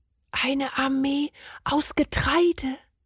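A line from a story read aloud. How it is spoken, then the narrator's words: Whisper. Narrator (German): flüsterte Bernd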